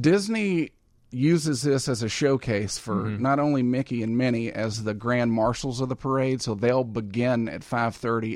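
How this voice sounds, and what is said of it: Southern US accent, Arkansas Delta. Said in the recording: “You'll never get rid of that accent, you know. ... I'm keeping my accent.”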